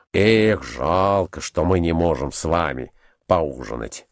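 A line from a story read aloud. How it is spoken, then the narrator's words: Annoyed mutter. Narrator (Russian): насадливо пробормотал Николай Иванович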